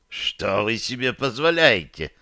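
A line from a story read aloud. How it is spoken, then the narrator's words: Hissing, male. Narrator (Russian): прошипел он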